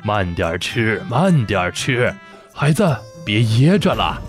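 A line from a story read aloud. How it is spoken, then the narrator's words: Kind, smiling. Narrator (Chinese): 范仲淹慈祥地看着彤彤，笑着对他说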